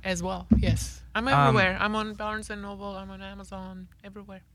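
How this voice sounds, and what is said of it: Non-native accented broken English. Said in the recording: “With my broken English. I love my broken English.”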